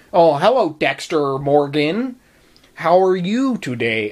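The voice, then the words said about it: Exaggerated, unconvincing American accent. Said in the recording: “a not completely convincing American accent. ... maybe I'm exaggerating”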